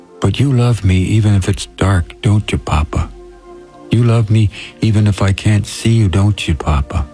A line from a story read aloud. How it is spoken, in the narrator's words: through her tears, the little girl whispered